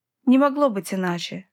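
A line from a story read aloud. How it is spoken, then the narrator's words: Sighing. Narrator (Russian): вздохнула Латиза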